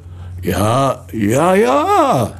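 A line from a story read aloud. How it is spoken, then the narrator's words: Moaning. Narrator (German): stöhnte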